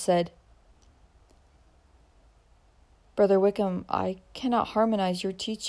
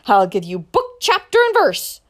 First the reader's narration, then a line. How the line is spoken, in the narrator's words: snapped the deacon